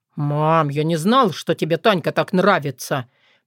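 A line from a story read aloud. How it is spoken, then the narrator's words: Mumbled. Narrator (Russian): промямлил Дима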